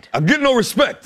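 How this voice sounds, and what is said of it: Rodney Dangerfield impression. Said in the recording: “Rodney Dangerfield ... that impression”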